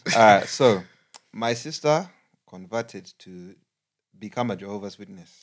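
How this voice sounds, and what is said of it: Put-on Ugandan accent. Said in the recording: “He's going to read the dilemma in Ugandan accent”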